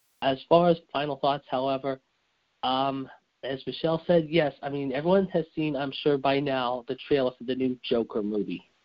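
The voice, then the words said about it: Hoarse, nearly lost voice. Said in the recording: “as you can tell my voice is just about almost down”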